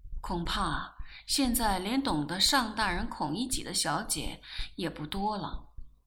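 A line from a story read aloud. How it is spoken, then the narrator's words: Murmuring. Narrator (Chinese): 我喃喃说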